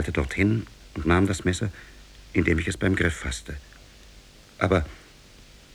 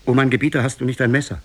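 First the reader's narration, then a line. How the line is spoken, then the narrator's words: Calling out. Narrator (German): rief ihm zu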